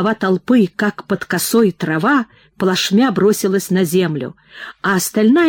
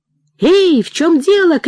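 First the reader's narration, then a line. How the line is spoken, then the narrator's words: Group shouting. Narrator (Russian): кричали они передним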